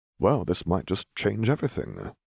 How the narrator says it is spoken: Ghost murmured

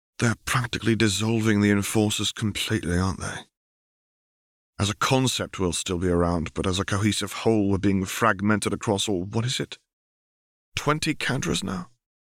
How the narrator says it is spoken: Caitlin sighed and said

